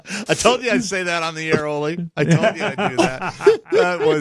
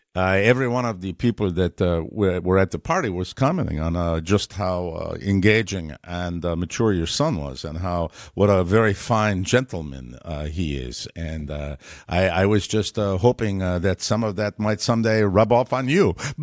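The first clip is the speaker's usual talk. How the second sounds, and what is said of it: Imitated Mexican accent. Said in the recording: “I'll do his Mexican accent.”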